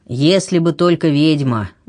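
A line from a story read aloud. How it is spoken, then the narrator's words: Sighing. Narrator (Russian): вздохнул епископ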